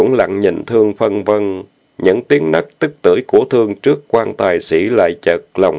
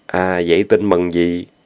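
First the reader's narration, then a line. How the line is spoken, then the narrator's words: Relieved sigh. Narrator (Vietnamese): Giọng chàng thấp thoáng tiếng thở dài thoải mái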